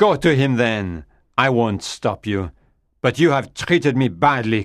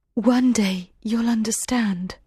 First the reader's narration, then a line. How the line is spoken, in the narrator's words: she said softly